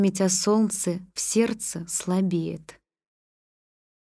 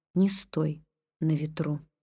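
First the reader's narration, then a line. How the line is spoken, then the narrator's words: Calm, eerie voice. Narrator (Russian): Улыбнулся спокойно и жутко и сказал мне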